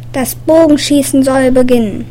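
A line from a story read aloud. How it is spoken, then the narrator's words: Announcer calling out. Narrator (German): ein Ansager rief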